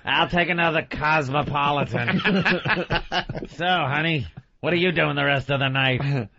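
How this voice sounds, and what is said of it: Put-on older woman barfly voice. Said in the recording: “sloppy old broad looks like sitting at that bar stool ... How'd you do the voice that time?”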